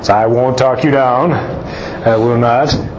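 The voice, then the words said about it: Lower-pitched preacher voice. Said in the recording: “that's my preacher voice ... they always have a special voice that they pray in ... their little voice change. It goes lower.”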